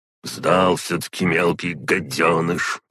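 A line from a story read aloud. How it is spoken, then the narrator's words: Mild grumbling. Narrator (Russian): проворчал домовой, но без особой злости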